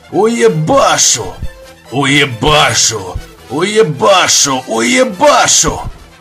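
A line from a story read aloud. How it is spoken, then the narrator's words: Vicious hoarse muttering. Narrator (Russian): Злобно и хрипло забормотал погребец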